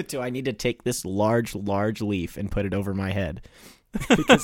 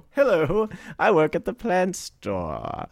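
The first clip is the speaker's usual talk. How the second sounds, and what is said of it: Spot-on imitation of a woman's accent. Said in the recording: “That was a spot on ... She's really got that accent in real life.”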